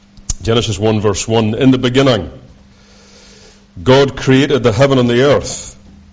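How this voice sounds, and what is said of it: Thick Scottish accent. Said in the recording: “the thick Scottish accent”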